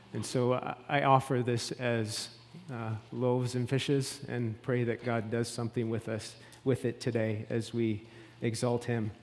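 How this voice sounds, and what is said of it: Canadian East Coast accent. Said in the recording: “it's no surprise from my accent that I am from the East Coast”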